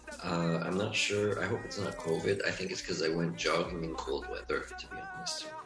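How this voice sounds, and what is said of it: Slightly hoarse, sick-sounding voice. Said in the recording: “I'm a bit sick. That's why my voice is a bit hoarse.”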